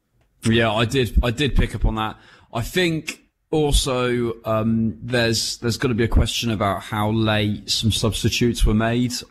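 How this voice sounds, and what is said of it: Dorset English accent. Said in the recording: “My Dorset tones.”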